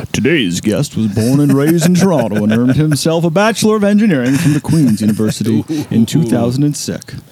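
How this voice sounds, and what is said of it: Exaggerated radio announcer voice. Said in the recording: “that radio voice is just ridiculous ... You haven't heard my radio voice yet”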